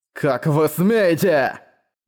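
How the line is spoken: Growl. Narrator (Russian): прорычал Манхао

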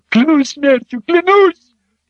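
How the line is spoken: Slave shrieking. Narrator (Russian): Раб завизжал

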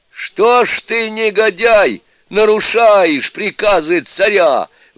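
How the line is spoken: Shouting in unison. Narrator (Russian): В один голос закричали Суню-кун и Шасен

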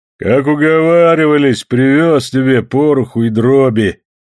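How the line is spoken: Deep bass voice. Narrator (Russian): пробасил исправник

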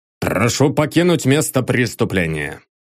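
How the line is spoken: Irritated declaration. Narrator (Russian): раздраженно заявил Давыдов, которому надоело, что кто ни попадя лезет в дело участка

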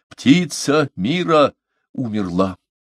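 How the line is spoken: Menacing cry. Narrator (Russian): вскричал грозным голосом

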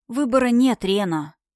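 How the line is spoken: Sigh. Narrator (Russian): вздохнула

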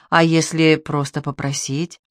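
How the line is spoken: Muttered. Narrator (Russian): Пробормотала

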